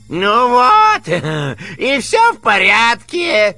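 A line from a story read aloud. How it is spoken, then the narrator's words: Joyful. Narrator (Russian): радостно объяснил Коровьев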